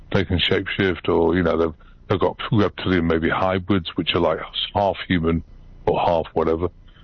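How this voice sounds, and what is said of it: British accent. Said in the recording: “I've still got a British accent”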